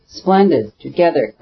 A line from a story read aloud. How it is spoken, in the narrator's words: cried Levin